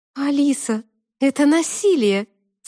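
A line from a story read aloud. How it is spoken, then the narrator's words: Laughing exclamation. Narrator (Russian): со смехом воскликнула Тата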